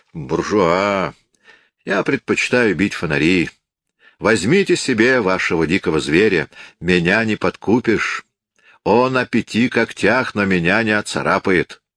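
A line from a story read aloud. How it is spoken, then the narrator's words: Grand, majestic tone. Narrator (Russian): с величественным видом сказал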